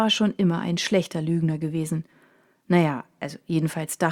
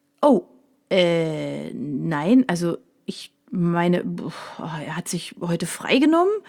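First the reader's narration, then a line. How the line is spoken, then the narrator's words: Stammering. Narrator (German): stotterte er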